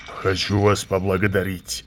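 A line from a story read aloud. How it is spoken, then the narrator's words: Loud snort. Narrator (Russian): шумно фыркнул он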